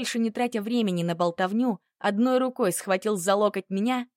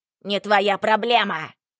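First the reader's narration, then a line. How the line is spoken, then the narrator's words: Barking. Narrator (Russian): рявкнул Бурхаев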